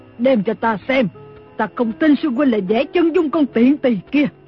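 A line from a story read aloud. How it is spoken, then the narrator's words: Scream. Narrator (Vietnamese): Lý Thu Thủy ... thét lên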